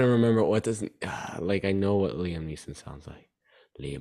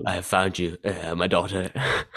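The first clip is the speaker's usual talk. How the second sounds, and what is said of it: Poor imitation of another person's voice. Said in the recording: “my Liam Neeson impression ... That's a terrible Liam Neeson impression ... That's so bad.”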